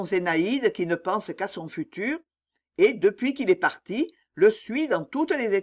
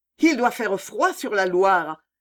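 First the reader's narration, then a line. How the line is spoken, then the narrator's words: Dreamy exclamation aloud. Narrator (French): s'écrie-t'elle en achevant tout haut son rêve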